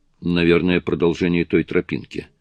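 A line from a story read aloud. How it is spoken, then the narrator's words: Gloomy reply. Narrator (Russian): мрачно ответил тот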